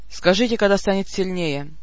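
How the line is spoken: Dry command. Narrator (Russian): сухо велел командир

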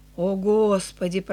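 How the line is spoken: Mutter. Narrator (Russian): пробормотала Эленор

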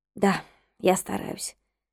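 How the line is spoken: Muttering. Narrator (Russian): пробормотала я

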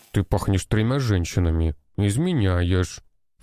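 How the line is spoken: Snorting. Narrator (Russian): фыркнула Вася

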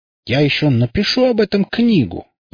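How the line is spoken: Passionate exclamation. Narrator (Russian): с горячностью воскликнул

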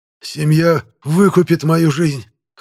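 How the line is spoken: Hoarse wheeze. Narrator (Russian): хрипит Слуцкий

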